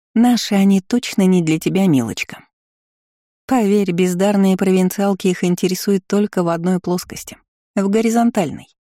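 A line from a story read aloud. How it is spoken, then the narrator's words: Purr. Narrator (Russian): промурлыкала рыжая старшекурсница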